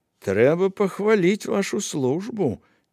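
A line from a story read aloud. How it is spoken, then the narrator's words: Quiet. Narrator (Belarusian): ціха сказаў лотар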